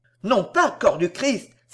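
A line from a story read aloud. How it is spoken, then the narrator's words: Sharp exclamation. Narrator (French): s'écria vivement Cervantes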